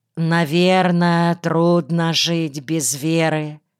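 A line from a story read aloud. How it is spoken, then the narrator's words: Sympathetic sigh. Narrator (Russian): Млеткин вздохнул и сочувственно произнес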